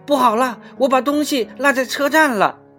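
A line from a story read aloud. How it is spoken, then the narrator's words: Crying out. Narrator (Chinese): 他终于叫了起来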